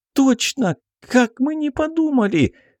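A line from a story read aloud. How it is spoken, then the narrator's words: Sudden joyful laughter. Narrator (Russian): Вдруг обрадовалась Белка, захохотав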